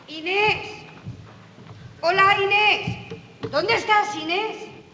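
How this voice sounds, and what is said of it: Shouting loudly. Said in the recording (Spanish): “¡No grites,”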